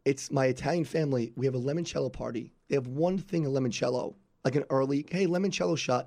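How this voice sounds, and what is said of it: Raspy, hoarse voice. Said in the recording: “apologize for my voice ... So my voice is all raspy.”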